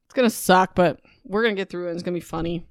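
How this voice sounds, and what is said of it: Slightly raspy voice. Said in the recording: “my voice was a bit raspy.”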